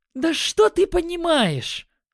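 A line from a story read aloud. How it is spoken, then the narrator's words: Flushed angry exclamation. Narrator (Russian): Воскликнула Магиня, ее лицо стало красным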